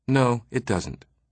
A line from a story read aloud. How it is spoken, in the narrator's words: he replied in a very pleasant voice